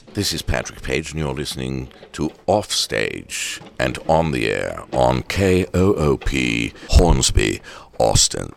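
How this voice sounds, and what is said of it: Ridiculous put-on accent. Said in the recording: “That's a ridiculous accent. That's not how I really sound.”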